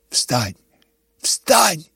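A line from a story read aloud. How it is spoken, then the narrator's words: Frightened whisper. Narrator (Russian): говорил он испуганным шепотом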